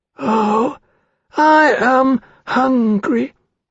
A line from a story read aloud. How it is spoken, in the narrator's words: the dragonette said, in a small piping voice which sounded very much as though it were being whistled through a reed